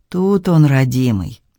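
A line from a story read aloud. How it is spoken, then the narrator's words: Tender mutter. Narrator (Russian): почти ласково пробормотал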